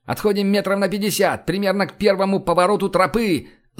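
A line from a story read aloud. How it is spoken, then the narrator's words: Yelling. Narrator (Russian): заорал я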